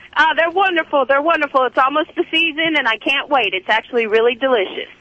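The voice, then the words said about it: Southern American accent. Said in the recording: “This is a fabulous accent is real... That's like talking to Carl's sister who lives in Chattanooga”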